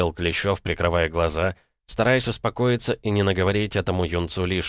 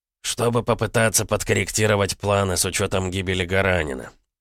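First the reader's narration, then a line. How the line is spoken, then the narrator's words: Through gritted teeth. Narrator (Russian): процедил Клещев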